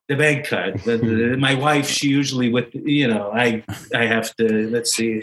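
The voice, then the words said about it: Put-on Jewish accent. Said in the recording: “Did you get more Jewish? ... You sort of put on an accent there.”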